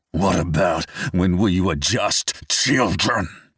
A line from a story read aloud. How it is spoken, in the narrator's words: Max growls, straining to continue, as though he is fighting with honesty